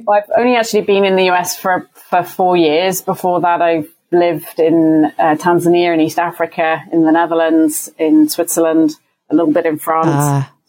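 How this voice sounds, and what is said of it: British accent. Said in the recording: “I haven't lived in the U.K. for around 25 years now ... You've maintained your accent well”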